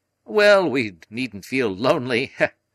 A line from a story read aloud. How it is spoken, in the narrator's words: said Lord John, laughing